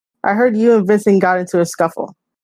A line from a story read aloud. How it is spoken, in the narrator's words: she said